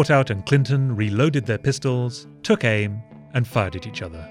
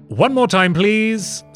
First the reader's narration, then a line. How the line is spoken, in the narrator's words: Smith called out